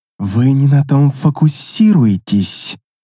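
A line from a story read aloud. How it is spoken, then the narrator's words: Through gritted teeth. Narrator (Russian): процедила Люрейна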